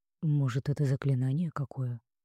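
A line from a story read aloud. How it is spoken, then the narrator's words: Whispered guess. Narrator (Russian): предположил другой, перешептываясь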